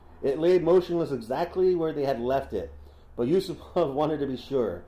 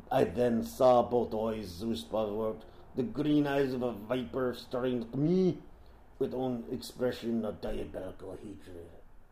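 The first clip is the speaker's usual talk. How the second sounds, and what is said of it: Poor put-on Russian accent. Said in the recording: “That's a terrible Russian accent.”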